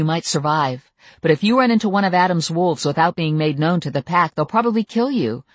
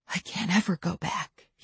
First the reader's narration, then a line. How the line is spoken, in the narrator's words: he whispered